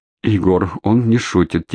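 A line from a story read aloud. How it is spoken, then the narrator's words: Quiet near whisper. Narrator (Russian): тихо сказала, почти прошептала Надежда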